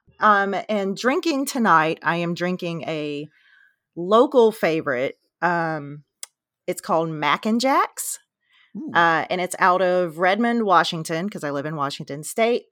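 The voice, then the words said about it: Raspy, smoky voice. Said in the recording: “Little raspy. Kind of have a little head cold ... my sexy Demi Moore smoky voice”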